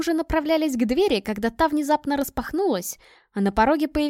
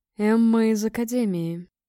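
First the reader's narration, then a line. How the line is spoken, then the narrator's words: Solemn, thunderous elder's voice. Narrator (Russian): заговорил старейшина Торг торжественным голосом, звучащим как раскаты грома в горах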